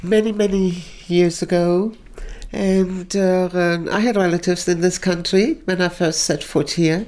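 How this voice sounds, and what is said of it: German accent. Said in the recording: “Your accent is lovely. ... Actually, it's German.”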